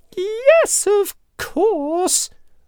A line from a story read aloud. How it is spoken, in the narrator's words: the little mouse squeaked, relieved